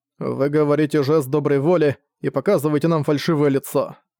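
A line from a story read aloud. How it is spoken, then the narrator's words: Plain. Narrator (Russian): сказал он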